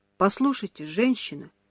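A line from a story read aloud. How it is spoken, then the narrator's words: Quiet saleswoman. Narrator (Russian): тихо сказала продавец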